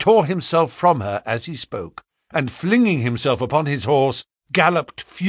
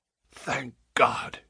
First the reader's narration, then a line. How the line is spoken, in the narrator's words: he said hoarsely